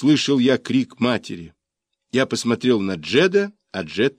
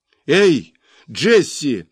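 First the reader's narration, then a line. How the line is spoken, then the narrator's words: Frightening shout. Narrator (Russian): крикнула мать, и этот крик прозвучал страшнее всякой затрещины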